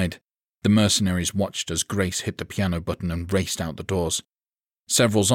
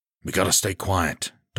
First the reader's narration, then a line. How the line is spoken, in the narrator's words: Dodson murmured